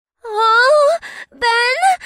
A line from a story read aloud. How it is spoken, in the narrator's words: She sputtered